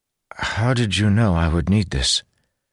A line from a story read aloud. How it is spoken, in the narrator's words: Malshash sighed